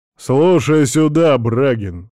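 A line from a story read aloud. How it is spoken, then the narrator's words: Loud, bossy. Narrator (Russian): громко, с выражением начальника, не привыкшего слушать возражения, заявляет он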